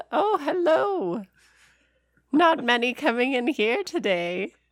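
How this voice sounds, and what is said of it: Old lady character voice. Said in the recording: “old lady voice is hilarious ... It's a serious voice”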